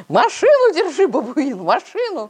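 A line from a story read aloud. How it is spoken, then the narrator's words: Wheezing hoarsely. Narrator (Russian): сипел подоспевший полковник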